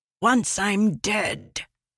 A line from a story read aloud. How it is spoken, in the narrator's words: ELA hissed